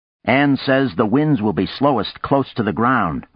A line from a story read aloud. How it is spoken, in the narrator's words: Arkady said